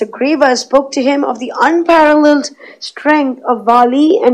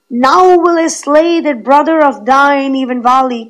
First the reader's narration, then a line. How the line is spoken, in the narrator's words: cried Rama, and he swore it by a mighty oath